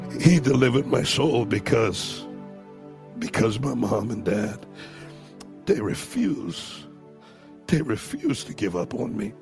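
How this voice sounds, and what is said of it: Emotional voice. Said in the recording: “I'm sorry if I get emotional.”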